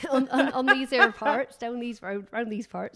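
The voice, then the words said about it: Put-on West Country farmer accent. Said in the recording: “I don't know why I've decided I'm a West Country farmer ... No, it was a lovely ... Impression.”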